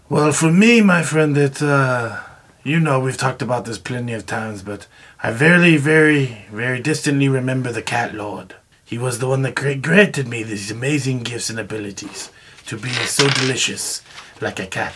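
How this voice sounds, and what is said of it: Put-on accent. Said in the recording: “your accent”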